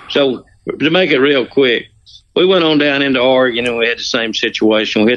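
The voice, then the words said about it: Southern American accent. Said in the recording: “you got a Southern guy. You got a good Southern accent”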